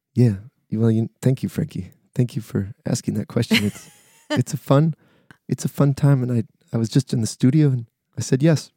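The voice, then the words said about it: Soft-spoken, chill imitation of another person. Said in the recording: “is my Troy Sampson impression ... Soft-spoken and strong-hearted ... just super chill”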